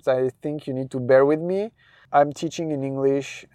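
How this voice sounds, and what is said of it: French accent in English. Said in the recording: “this is my accent... I'm using a French word instead of an English word”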